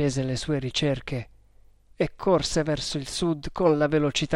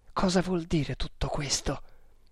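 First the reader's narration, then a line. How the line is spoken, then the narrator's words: Surprised mutter. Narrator (Italian): borbottò il Maharatto, che cadeva di sorpresa in sorpresa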